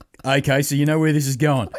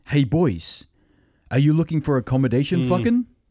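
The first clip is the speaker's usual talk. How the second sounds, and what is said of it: Thick put-on Czech accent. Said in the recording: “in really thick Czech accent”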